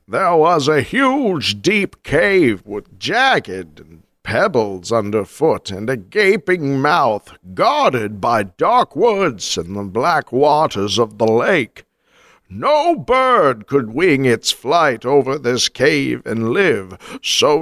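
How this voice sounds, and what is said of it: Deckard Cain character voice. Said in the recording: “best Virgil accent ... Give me a Deckard Cain.”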